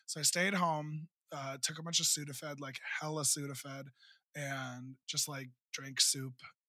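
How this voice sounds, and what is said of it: Scratchy, hoarse voice. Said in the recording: “But my voice is still really scratchy ... I have not had a voice since then”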